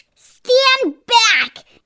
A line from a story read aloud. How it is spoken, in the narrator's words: Aunt Sponge shouted